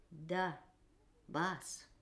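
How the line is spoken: Quiet, several voices. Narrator (Russian): тихо сказали они

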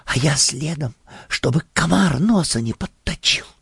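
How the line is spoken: Conspiratorial whisper. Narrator (Russian): заговорщически шепнула

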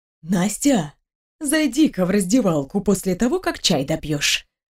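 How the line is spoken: Conspiratorial whisper. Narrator (Russian): заговорчески прошептала Марья Васильевна

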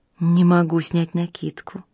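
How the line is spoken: Whispered in ear. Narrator (Russian): шепнула княгиня Фрине на ухо

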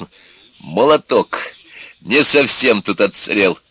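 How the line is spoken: Joyful. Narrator (Russian): сказал радостно

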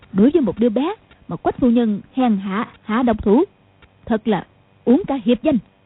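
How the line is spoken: Angry old woman. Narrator (Vietnamese): Mụ Dung tức giận nói

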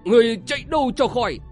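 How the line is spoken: Cackling loud shout. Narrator (Vietnamese): Tôi Môn Văn cười khẳng khặc hét to

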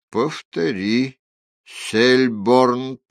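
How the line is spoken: Said through gritted teeth. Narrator (Russian): процедил он

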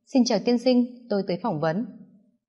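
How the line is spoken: Calm after a breath. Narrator (Vietnamese): Dự Thiên Tuyết nhẹ nhàng hít một hơi, mở lời nói

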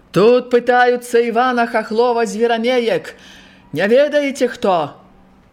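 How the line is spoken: Loud question. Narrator (Belarusian): Палонны гучна спытаўся

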